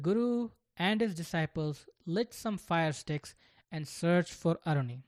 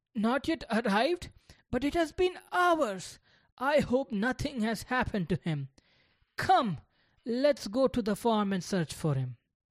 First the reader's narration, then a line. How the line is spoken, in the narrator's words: The guru exclaimed in surprise